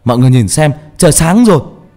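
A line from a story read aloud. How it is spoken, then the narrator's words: Loud shout. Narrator (Vietnamese): Trọng hét to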